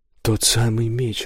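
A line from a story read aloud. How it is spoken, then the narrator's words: Exclaiming. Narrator (Russian): воскликнул Кристофер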